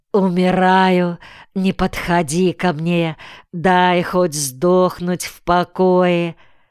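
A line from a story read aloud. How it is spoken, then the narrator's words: Whining, groaning, as if dying. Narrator (Russian): Ныл, вздыхал, стонал Куса, словно и в самом деле был при смерти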